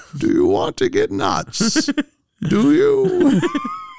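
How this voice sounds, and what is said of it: Bane character voice, odd accent. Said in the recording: “quoting the 1989 Batman, but as Bane ... What is that accent? It's like half Monopoly guy, half like guy with a cleft palate.”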